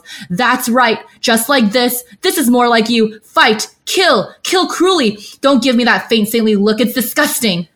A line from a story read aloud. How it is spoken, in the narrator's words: he's excited that he's getting a reaction from Shaelion, he howls